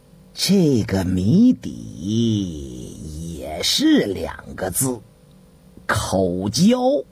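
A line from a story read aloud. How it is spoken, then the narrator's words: Slow, drawling. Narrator (Chinese): 程文慢吞吞地说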